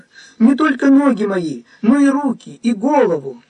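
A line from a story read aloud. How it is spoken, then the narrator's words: Quick exclamation. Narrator (Russian): тотчас воскликнул Петр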